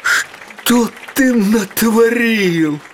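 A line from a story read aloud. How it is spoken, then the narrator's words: Sad question. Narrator (Russian): печально спросил его режиссер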